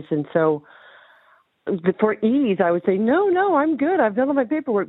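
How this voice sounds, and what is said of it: American accent. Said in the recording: “you can hear my accent, I'm American”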